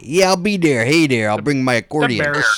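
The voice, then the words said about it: Chicago accent. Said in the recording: “I love your Chicago accent.”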